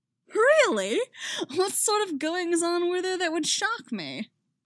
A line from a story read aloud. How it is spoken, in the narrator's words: Harry laughs